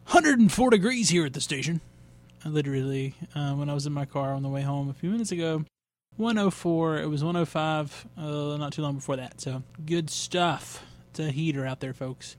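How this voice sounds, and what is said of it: Fake radio announcer voice. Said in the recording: “my fake radio voice”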